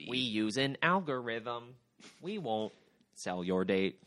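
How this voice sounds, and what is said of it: Mark Zuckerberg impression. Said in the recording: “of Mark Zuckerberg ... when you do the voice”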